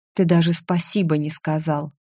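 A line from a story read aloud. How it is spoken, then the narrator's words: Quiet. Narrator (Russian): тихо сказала я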